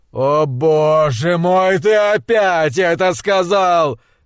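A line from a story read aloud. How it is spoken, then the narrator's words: Roaring. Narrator (Russian): взревел он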